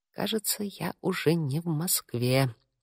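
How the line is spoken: Mutter. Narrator (Russian): пробормотала я

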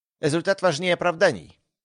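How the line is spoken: Cold interruption. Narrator (Russian): холодно прервал ее Вейлонг

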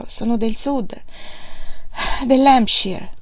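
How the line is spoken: Said with slight sigh. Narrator (Italian): disse Margaret con un leggero sospiro

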